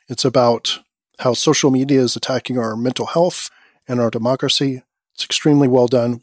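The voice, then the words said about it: Worn-out, strained voice. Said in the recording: “sorry about my voice. ... my voice is shot”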